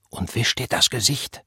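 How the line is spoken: Whispering. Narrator (German): flüsterte er

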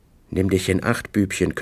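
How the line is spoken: Growled. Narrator (German): knurrte

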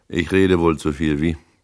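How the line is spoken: Rough throat-clearing voice. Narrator (German): räusperte er sich plötzlich und sagte mit rauer Stimme

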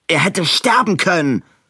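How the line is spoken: Snarled. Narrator (German): fauchte Edwin

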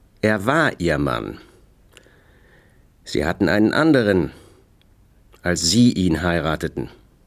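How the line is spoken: Indifferent flat voice. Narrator (German): sagte Spencer mit derselben indifferenten Stimme

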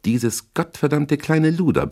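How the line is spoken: Roar. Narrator (German): brüllte er

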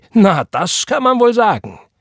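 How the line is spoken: Called out. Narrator (German): rief

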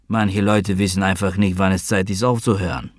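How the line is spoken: Grumbling. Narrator (German): brummte er

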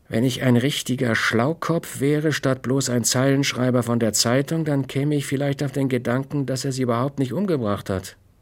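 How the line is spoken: Calm. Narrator (German): sagte Lonnie Morgan ruhig

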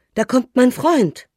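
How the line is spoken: Child calling out. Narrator (German): Der kleine Junge ruft

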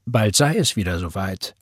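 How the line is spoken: Plain. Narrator (German): sagte Roy

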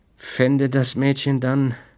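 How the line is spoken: Slow continuation. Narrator (German): fuhr er langsam fort

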